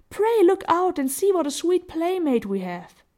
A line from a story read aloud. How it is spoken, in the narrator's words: cried Violet